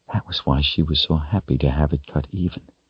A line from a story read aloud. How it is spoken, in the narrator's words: she whispered